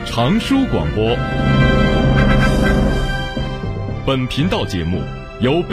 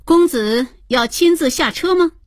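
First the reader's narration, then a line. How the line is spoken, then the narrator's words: Clear, charming voice. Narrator (Chinese): 他的声音清脆，每说一个字，鬓上的环佩就叮咚作响，更显得妩媚可人了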